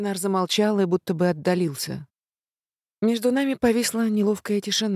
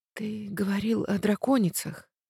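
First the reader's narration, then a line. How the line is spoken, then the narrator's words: Whispered. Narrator (Russian): прошептала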